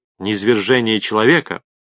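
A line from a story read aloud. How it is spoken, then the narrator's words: Strained grumble. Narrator (Russian): пробурчал он, с трудом взбираясь обратно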